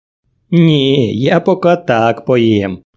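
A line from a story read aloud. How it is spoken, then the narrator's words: Laughing reply. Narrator (Russian): рассмеявшись, ответила она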